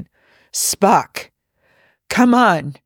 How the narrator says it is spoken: Hendorf shouts

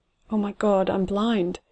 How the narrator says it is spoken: stutters out, throat making the words panic rough, then immediately closing off around them

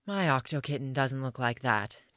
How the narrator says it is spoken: Tim sighed

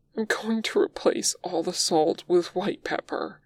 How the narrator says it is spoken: Wei Ying says, trying for furious and ending up pleading

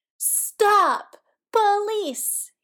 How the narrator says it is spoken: he yelled, in a voice that could only be called gleeful

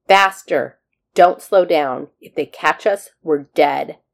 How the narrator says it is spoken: he barked at the scientist just above the man's ear

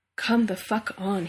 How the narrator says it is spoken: he says under his breath ... more of a prayer

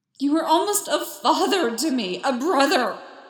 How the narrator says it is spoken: Anakin screamed

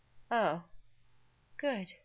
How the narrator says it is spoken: Rodney yawned

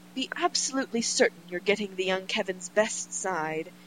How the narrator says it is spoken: says earnestly

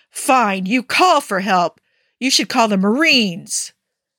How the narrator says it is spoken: yell

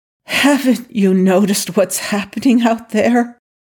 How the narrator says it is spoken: Daniel pleaded

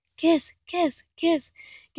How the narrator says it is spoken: Gabriel chants under his breath

